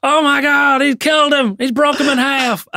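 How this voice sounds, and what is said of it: American wrestling announcer voice. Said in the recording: “I used to do that with JR, so I had a full American accent.”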